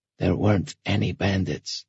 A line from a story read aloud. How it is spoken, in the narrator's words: he whispered, leaning down over the wounded man's bed